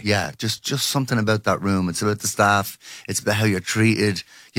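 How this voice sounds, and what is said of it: Slightly strained, tired singer's voice. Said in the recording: “We played 9:30 last night, so my voice is a bit shut.”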